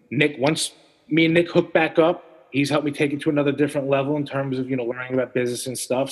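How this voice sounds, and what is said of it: New York accent. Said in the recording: “I like that New York accent, the way you said it”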